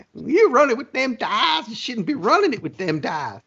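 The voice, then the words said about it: Imitates another person's voice. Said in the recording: “did you just mock me with that? ... I impersonated you. ... Do it again.”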